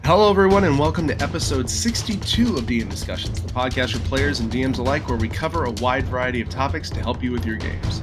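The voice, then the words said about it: Congested, stuffed-up voice. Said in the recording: “I've got a little cold. I'm a little stuffed up.”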